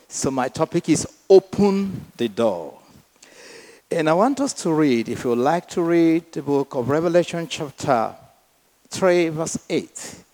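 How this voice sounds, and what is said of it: Speaks with a noticeable accent. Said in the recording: “I hope you'll be struggling with my accent from the beginning.”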